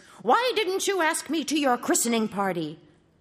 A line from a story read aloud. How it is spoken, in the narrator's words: they all cried with one voice